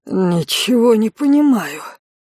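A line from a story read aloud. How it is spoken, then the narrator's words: Low hoarse wheeze. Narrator (Russian): прохрипела Виктория низким голосом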